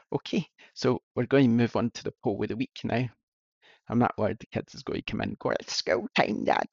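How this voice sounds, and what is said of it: Strained, hoarse voice. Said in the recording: “I think I need cough. ... I'm starting to lose my voice.”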